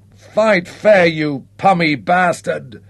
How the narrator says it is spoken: howled in outrage

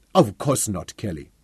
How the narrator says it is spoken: Patrick denied the charge a little too hotly

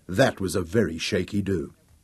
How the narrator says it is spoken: he murmured thankfully

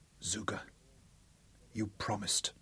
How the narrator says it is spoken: a letter whispered

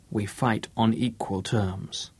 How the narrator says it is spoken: he whispered

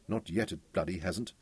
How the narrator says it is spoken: Daniel muttered

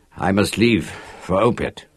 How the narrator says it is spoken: said, slurring like a drunkard

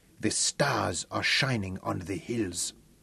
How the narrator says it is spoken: Gundang whispered with superstitious awe

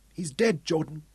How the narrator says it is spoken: he choked

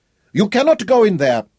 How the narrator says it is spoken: he cried fearfully

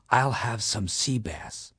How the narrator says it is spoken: I quietly whispered

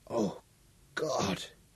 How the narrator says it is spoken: croaked

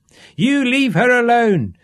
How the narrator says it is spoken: shouted Upa desperately

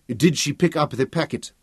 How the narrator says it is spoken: Tafari asked anxiously

